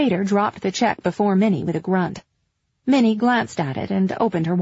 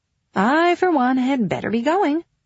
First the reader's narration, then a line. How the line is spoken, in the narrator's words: Betsy said brightly